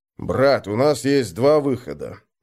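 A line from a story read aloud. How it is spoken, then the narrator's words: Gloomy. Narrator (Russian): мрачно сказал Крум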